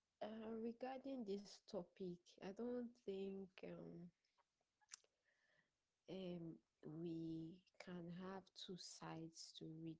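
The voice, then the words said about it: Tired-sounding voice. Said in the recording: “my voice is like this. I'm very tired.”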